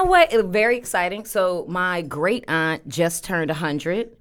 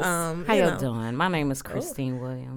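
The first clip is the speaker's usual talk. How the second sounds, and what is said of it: Put-on sultry, sexy voice. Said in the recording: “Is that your sexy voice? Because that is not how you talk.”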